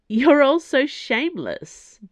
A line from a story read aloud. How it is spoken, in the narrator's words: Dana laughed